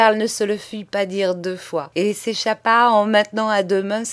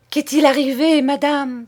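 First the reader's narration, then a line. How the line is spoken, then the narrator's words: Hypocritical cry, suppressed smile. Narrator (French): s'écria hypocritement Betty, qui avait compris toute la scène et qui avait peine à dissimuler un sourire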